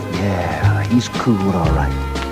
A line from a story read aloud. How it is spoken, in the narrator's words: everybody kind of said under their breath